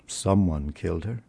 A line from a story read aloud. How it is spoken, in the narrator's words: Stephen said gloomily